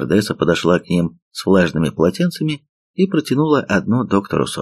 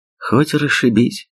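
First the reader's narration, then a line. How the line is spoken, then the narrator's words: Sigh. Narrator (Russian): вздохнул товарищ Бук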